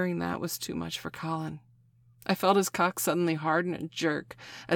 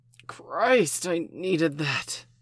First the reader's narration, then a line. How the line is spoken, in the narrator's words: he gasped